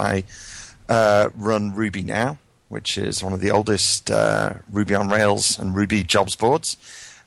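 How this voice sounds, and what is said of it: British accent, somewhat Americanized. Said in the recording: “I come from the UK, although my accent's a little mangled at this point, having lived probably 16 years in the US”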